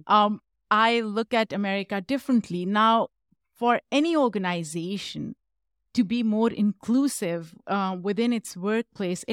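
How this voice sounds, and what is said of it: Non-native English accent. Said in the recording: “as an immigrant as all of you can tell i have an accent”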